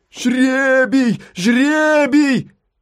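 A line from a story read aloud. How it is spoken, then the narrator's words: Crowd shouting. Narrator (Russian): закричала толпа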